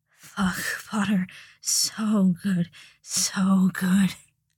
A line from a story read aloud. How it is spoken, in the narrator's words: moaning